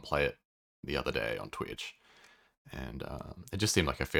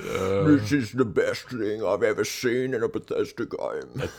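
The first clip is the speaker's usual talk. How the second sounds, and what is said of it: Dim-witted hypermasculine put-on voice. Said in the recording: “I love the voice you put on them. Fucking lobotomized. Lobotomized hypermasculine. ... It's a terrible impression. ... Sounds nothing like that.”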